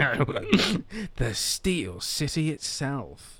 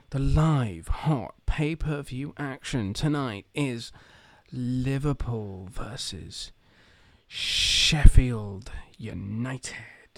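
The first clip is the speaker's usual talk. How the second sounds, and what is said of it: American TV announcer accent. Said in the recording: “I'm doing the American accent then. Sorry, I need to do the television accent.”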